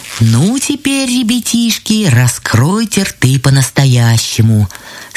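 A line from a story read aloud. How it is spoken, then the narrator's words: Plain. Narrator (Russian): сказали грибы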